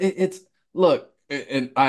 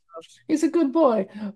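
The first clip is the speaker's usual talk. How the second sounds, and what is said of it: Exaggerated old Italian grandma accent. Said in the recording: “old Italian grandma with it ... I apologize for my horrible accent”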